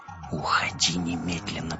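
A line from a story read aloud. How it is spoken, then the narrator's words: Whispered. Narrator (Russian): прошептал Вим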